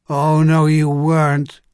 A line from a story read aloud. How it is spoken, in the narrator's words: Zones replied feebly